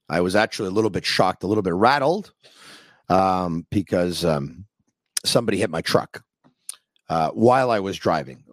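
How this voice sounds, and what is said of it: Strained, fading voice. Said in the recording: “I'm going to clear my throat because I'm losing my voice... Maybe it's because I let out a little scream earlier today.”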